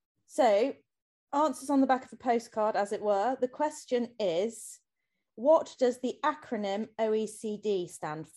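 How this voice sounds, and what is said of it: Formal BBC announcer voice. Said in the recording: “best BBC announcer voice.”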